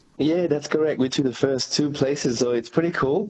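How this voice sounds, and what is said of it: French accent. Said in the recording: “as we can tell by your accent. You've got French origins”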